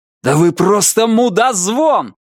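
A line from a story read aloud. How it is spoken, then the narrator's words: Yelling. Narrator (Russian): заорал он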